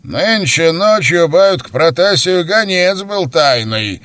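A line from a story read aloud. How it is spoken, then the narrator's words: Loud. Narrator (Russian): громко сказал Юрий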